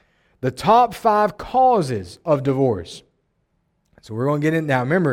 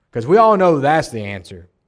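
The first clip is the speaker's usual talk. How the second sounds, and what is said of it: Sarcastic tone. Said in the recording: “I'm being sarcastic if you can't see it on my face or hear it in my voice.”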